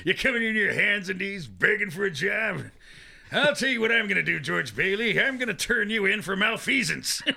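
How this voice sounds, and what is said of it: Lionel Barrymore impression, Walter Brennan-like. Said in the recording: “your Barrymore impersonation borders on a Walter Brennan almost”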